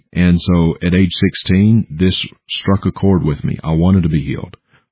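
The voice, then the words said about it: Southern US accent. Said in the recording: “Vicksburg, Mississippi. So Southern accent, that's where I'm from.”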